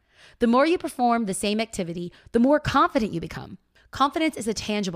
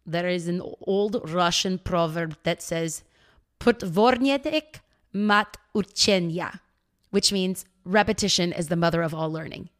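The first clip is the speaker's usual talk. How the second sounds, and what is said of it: Put-on Russian accent. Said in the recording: “that was my Russian accent.”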